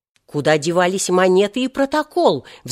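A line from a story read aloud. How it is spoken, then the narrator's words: Roar. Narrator (Russian): взревел следователь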